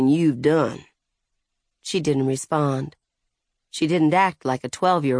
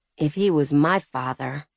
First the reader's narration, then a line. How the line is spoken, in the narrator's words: she muttered